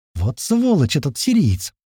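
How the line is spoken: Sincere exclamation, girl. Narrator (Russian): искренне воскликнула девушка

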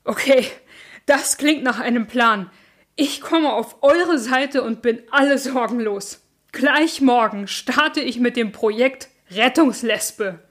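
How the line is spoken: Panting after calming down. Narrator (German): Als sie sich wieder beruhigt hatten, keuchte

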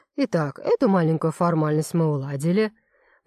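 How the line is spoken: Soft continuation. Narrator (Russian): продолжает мягко Багрянцев

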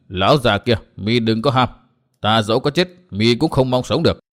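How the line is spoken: Cold. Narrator (Vietnamese): Độc trung chi độc lạnh lùng nói

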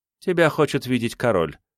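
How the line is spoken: Dry statement. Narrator (Russian): сухо сообщила

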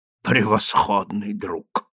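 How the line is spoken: Muttered. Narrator (Russian): пробормотал он

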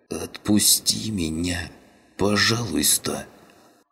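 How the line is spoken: Hoarse wheeze. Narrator (Russian): просипел каннибал

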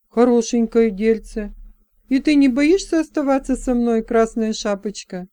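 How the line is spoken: Sad wry laugh. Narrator (Russian): Она печально усмехнулась

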